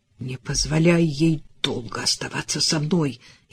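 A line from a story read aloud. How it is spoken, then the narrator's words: Furious hiss. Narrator (Russian): яростно прошипел Риф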